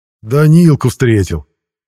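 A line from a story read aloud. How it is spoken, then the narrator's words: Joyful yell. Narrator (Russian): радостно заорал я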